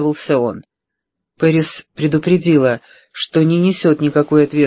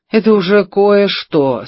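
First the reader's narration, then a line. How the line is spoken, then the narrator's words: Relieved sigh. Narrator (Russian): с облегчением вздохнула Пэрис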